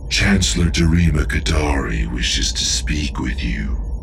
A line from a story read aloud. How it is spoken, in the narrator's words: said Ornate in her smooth, silky voice